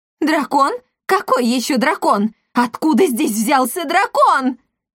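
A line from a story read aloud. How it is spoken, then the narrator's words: Excited exclamations, many voices. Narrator (Russian): взволнованно восклицали гости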